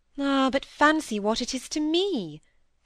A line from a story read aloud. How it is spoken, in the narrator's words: sighed out Mrs